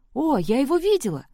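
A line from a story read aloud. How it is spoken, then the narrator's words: Exclaiming. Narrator (Russian): воскликнула Сэм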